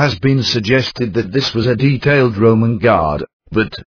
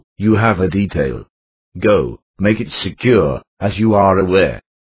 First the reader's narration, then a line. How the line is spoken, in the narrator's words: Pilate would growl